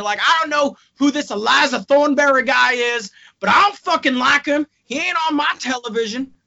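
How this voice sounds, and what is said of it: Poor put-on Texas accent. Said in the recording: “my horrendous Texas accent”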